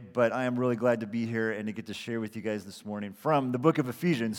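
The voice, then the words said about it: Slightly hoarse, worn-out voice. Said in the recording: “My voice is a little bit shot from all the cheering that I've been doing over the last day”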